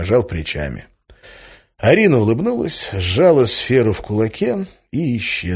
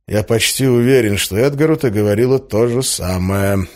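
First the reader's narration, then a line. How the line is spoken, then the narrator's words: Gloomy reply. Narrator (Russian): мрачно ответил я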